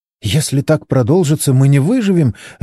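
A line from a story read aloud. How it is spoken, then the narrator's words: Frightened babbling. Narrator (Russian): лепетала Моника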